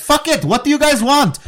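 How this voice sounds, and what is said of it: Clumsy put-on accent, sounds Lebanese. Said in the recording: “That sounded more Lebanese. I'm sorry about that. I'm not good with accents.”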